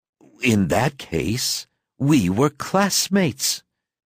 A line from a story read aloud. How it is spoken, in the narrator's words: exclaimed the other